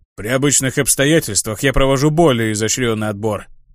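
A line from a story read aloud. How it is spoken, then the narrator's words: Grumbling. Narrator (Russian): проворчал он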